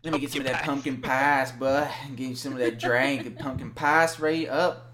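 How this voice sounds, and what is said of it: Attempted North Carolina accent. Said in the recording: “I'm just doing my North Carolina accent I've learned over the years ... No, that's not even close ... That sounds like a Chicago thing.”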